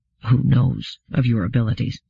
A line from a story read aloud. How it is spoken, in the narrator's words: Bailey said, in very nearly a whisper, as though dreading being overheard